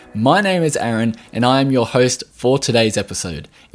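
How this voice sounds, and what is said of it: Australian accent. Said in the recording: “I am from Australia, if you hadn't already guessed from the accent”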